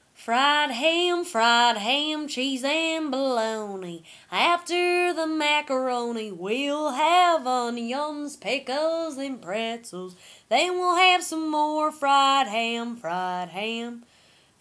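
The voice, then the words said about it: Singing in a put-on Southern accent. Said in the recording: “add a southern accent, a little bit worse”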